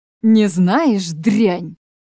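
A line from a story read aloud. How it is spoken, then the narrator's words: Growl. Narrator (Russian): прорычал он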